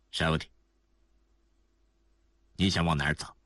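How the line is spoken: Cold question. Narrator (Chinese): 希尔埃里冷冷地问道

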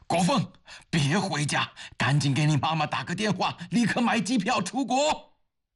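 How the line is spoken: Loud urgent shout, in pain. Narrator (Chinese): 刘峰顾不得身体已经被撞得剧痛，他大声地向儿子喊着

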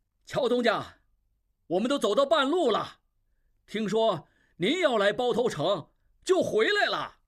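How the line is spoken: Shopkeeper speaking loudly. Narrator (Chinese): 一掌柜模样的人上前大声说

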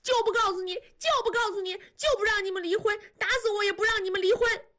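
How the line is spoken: Frantic screaming. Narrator (Chinese): 急了，狂喊

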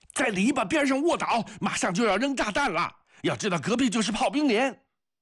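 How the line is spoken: Shouting. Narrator (Chinese): 锅圈喊着

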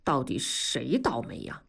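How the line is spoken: Muttering. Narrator (Chinese): 刘强嘀咕着说

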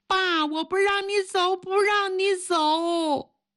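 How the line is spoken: Child wailing, crying. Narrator (Chinese): 他的女儿 哇哇的哭

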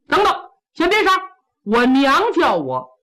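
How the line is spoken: Hurried call. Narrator (Chinese): 苏和庆忙叫刀斧手

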